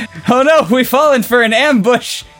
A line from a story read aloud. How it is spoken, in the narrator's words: yelled Raphael